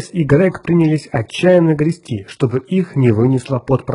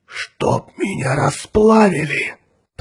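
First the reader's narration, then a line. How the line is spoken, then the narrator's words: Whisper. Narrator (Russian): прошептал Грег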